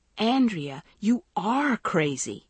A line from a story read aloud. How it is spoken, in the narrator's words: Maggie cried in frustration